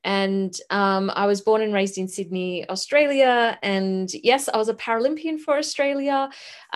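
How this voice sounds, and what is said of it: Australian accent. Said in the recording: “I'm Australian, as you can probably tell by the accent”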